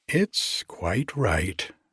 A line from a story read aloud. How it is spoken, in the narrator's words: she said calmly